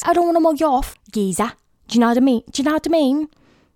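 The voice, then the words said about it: Put-on Essex accent, admittedly poor. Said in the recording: “I start talking from like I'm from Essex ... 0 out of 5 stars for my accent”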